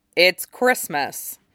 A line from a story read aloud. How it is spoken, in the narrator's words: Jason replied blandly